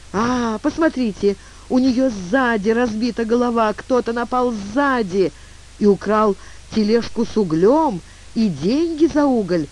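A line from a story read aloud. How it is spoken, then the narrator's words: Exclaiming. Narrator (Russian): воскликнул тюльпан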